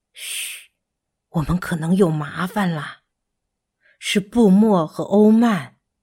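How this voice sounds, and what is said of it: Hushed, quiet whispering voice. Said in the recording (Chinese): “小声”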